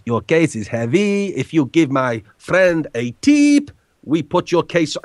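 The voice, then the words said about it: Dodgy put-on Mexican accent. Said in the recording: “I'll try and put on a dodgy Mexican accent”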